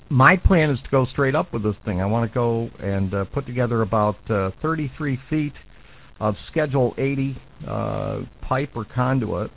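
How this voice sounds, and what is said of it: Hoarse, strained voice. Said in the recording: “I don't know why I'm losing my voice this morning”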